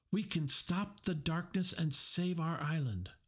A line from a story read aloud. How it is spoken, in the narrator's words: she cried victoriously